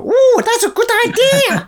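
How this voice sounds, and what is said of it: Jar Jar Binks impression. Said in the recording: “That's a very good impression.”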